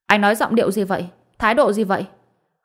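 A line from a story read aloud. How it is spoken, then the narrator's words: Angry. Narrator (Vietnamese): Phùng Trấn Hoa tức giận nói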